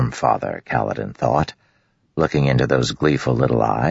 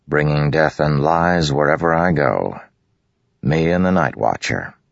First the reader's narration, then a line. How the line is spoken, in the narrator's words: he said dryly